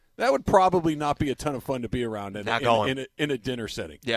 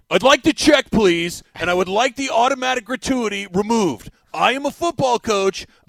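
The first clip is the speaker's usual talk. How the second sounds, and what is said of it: Staccato football coach voice, Dan Campbell. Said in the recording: “the Dan Campbell portion ... you know that I'm a head football coach because I talk in my voice like this ... I talk in a staccato voice.”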